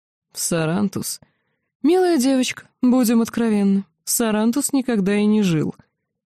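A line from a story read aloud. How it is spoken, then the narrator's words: Cheerful reply. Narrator (Russian): Маг весело ответил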